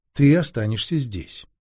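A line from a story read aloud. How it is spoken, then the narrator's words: Quiet, impressive, magician. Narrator (Russian): тихо и внушительно говорил ей маг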